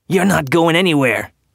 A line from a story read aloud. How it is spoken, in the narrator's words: Graham snapped